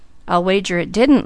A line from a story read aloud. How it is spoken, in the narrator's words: laughed Douglas